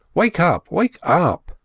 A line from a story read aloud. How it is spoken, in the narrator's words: cried Dick